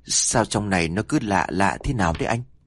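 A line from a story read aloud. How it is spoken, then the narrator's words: Timid, soft. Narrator (Vietnamese): Trâm là một đứa nhát gan hơn cả, níu lấy tay của Dương rồi khẽ nói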